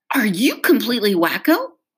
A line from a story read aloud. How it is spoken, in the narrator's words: snapped at her